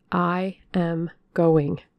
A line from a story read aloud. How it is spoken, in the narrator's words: How hard it was to reiterate firmly